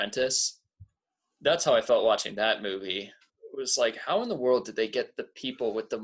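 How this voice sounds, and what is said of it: Usual voice. Nothing is said of it.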